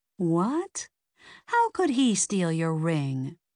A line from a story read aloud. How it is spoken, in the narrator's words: Victor chuckled